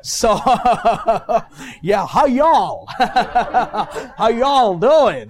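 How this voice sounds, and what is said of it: Put-on Kentucky southern accent. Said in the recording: “so you speak a Kentucky accent, huh? ... I'm just, learning the different accents, you know ... When I'm going to the southern part, I'm speaking southern”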